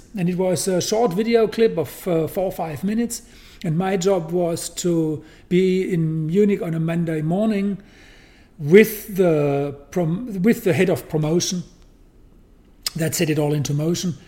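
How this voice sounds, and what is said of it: Heavy non-native English accent. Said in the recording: “I have a heavy accent”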